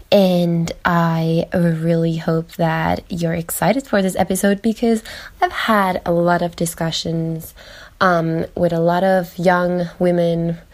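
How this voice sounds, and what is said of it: Slightly weird, recovering voice after flu. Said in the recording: “if I still sound a bit weird, but I just had a really, really, really terrible flu for 1 week. I lost my voice.”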